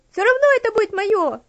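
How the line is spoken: Demanding child's shout. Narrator (Russian): требовательно крикнула девочка

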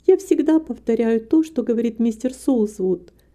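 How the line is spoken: Modest, suppressing laughter. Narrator (Russian): скромно ответила Рита, в то же время еле сдерживаясь, чтобы не рассмеяться

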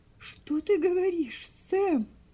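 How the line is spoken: Faltering, terrified exclamation. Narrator (Russian): Прерывающимся голосом воскликнула миссис Шелби, чувствуя, как у нее подкашиваются ноги от ужаса

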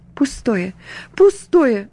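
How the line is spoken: Sighing through tears. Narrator (Russian): вздыхала сквозь слезы

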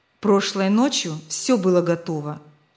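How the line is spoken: Grumble. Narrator (Russian): проворчал Месик

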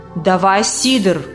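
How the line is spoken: Growled. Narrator (Russian): прорычал тот

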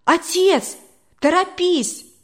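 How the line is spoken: Son shouting. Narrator (Russian): прокричал сын

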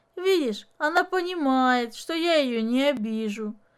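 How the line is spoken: Pleased laugh. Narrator (Russian): довольно рассмеялся отец Дениса

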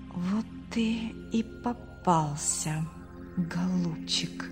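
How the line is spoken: Whisper. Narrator (Russian): прошептал Артур

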